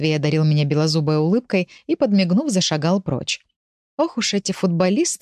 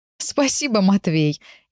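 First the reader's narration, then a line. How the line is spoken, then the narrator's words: Touched, laughing. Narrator (Russian): Я засмеялась, в какой-то степени даже растроганная его предложением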